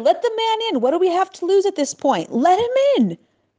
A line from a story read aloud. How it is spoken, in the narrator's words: he yelled desperately